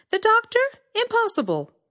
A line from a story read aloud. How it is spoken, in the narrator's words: exclaimed